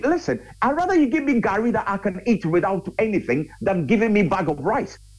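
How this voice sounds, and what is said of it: Raised, passionate voice. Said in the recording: “I'm sorry if I'm raising my voice because I get really passionate about this.”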